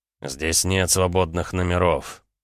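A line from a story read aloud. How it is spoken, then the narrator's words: Breathy exhale. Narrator (Russian): выдохнул Рома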